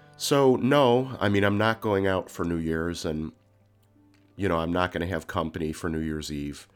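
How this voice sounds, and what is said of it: Congested, nasal, deeper than usual voice. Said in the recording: “deep, way deeper than it normally does, and I may sound a little bit more nasally than usual. I definitely have a cold ... I still have a ton of congestion ... my voice sounds a little weird to me ... I'm sorry for my more nasally than usual voice”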